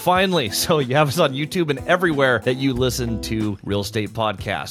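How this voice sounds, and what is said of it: Suave radio announcer voice. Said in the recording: “radio voice ... as soon as the mics lit up, you got this suave tone to you”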